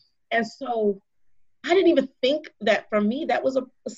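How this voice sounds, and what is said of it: Usual voice. Nothing is said of it.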